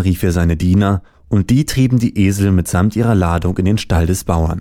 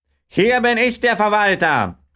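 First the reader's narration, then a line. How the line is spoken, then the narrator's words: Farmer calling out. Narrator (German): rief der Bauer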